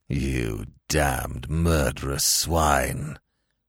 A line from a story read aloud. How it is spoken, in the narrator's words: in a repressed, savage undertone